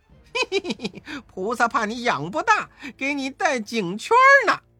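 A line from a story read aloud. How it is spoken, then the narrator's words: Laughing. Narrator (Chinese): 悟空笑道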